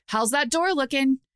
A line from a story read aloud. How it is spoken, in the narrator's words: she barked at Oko